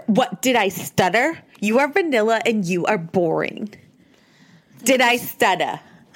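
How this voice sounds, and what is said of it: Good impression of Jennifer. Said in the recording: “This is Jennifer. ... That's a pretty good impression.”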